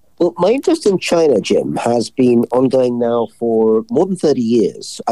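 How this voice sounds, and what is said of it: British accent. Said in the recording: “I came up through the British system, maybe you'll tell from my accent.”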